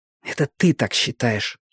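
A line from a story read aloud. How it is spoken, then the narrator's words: Embarrassed hiss. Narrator (Russian): прошипела Робин, немного смущаясь под взглядом красавца-полицейского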